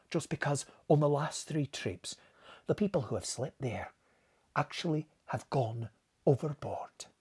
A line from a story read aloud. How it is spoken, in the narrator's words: he answered gravely